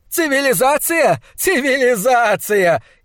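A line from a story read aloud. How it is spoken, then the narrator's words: Hysterical laughter. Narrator (Russian): истерически захохотал Хок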